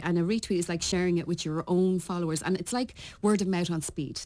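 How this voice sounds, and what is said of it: Irish accent. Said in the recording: “There's my Irish accent. They're all slagging me about my Irish accent.”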